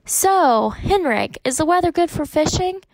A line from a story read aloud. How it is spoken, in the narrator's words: Papa asked, cheerfully